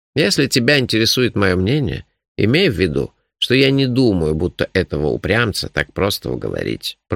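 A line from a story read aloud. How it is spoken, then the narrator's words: Grumbling. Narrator (Russian): проворчал Нуфлин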